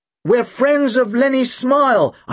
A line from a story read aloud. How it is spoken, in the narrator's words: I shouted back